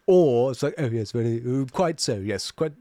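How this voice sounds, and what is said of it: Put-on posh British accent. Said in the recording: “the like super posh one ... it's super posh”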